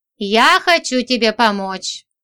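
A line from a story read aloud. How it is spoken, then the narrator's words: Sighing declaration. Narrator (Russian): вздохнув, заявил он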